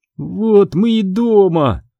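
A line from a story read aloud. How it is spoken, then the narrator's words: Groaned. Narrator (Russian): простонала Сабрина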